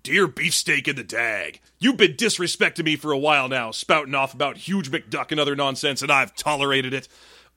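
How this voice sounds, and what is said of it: Mean Gene Okerlund put-on voice. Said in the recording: “I got to do this in a voice”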